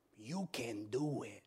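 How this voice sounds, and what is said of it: Imitates a movie character's voice. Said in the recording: “In my best Nacho Libre voice.”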